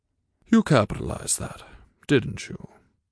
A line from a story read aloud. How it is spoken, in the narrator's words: Morgan sighed